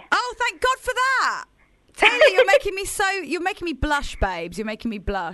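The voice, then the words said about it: British accent. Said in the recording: “We love British accents over there. ... I've got a proper British accent”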